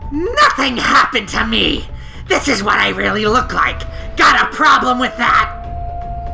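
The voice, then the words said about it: Snarling monster cat voice. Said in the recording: “give her like a monster voice ... monster cat”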